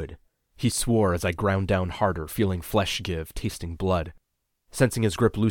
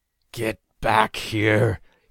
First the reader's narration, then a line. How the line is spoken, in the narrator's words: growled